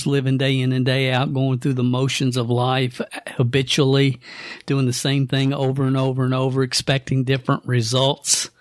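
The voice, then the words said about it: Kentucky country accent. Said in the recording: “who's this guy with a country accent? ... I was originally raised in a little town called Stamping Ground, Kentucky”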